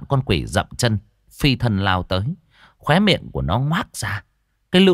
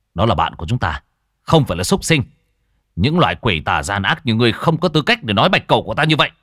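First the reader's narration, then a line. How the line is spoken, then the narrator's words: Angry. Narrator (Vietnamese): Hắn tức giận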